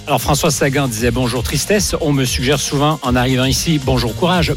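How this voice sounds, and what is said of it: Sing-song Canadian French accent. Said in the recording (French): “vous avez entendu son accent chantant ... Chantant. ... journaliste canadien”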